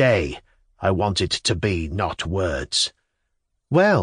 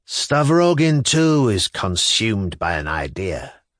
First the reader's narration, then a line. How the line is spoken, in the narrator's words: Kirillov said gloomily